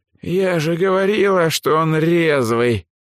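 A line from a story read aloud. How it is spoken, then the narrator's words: Hoarse wheezing woman. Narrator (Russian): прохрипела негритянка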